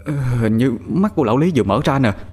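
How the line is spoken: Stammering. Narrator (Vietnamese): Thằng Toàn lắp bắp nói

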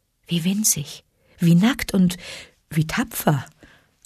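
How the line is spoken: Gentle motherly voice. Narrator (German): sagte Mutter Wolf sanft

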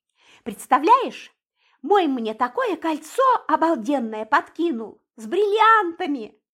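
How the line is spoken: Excited exclamation. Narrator (Russian): воскликнула Светка

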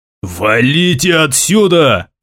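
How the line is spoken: Loud bark, undiminished. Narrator (Russian): не снижая тона, рявкнул стражник

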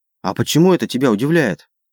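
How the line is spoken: Indignant steady question. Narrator (Russian): возмущенно спросила Марика, перестав дрожать

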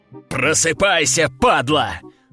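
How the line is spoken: Man growling. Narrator (Russian): рыкнул мужчина

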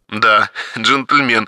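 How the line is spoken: Smirking grunt. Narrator (Russian): хмыкнул Сергей

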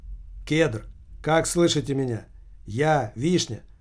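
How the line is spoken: Surprisingly calm. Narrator (Russian): Голос Мироненко звучал на удивление спокойно

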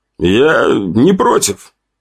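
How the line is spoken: Slightly louder, hoarser voice. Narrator (Russian): мой голос прозвучал чуть громче и хриплее, чем обычно

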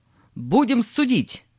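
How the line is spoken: Angry shouting. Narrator (Russian): он, стукнув кулаком по столу, закричал

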